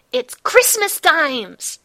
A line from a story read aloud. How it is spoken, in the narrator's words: yells